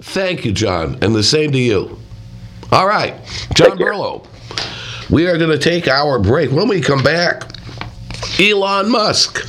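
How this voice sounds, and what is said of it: Hoarse voice. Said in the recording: “I also apologize for my hoarse voice.”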